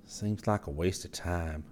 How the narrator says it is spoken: Scotty sighed

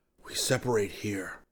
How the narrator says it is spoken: he whispered

